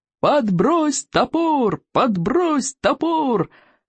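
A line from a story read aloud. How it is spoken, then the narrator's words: Cheerful yelling. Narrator (Russian): весело вопили стероиды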